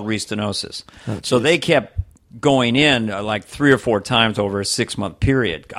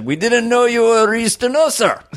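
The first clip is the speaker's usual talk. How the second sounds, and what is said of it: Put-on Indian accent. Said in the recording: “My cardiologist, who's from India ... he doesn't mind my impression”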